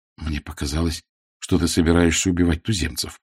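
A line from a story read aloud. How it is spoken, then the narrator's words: Mumbling. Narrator (Russian): пробормотал Шура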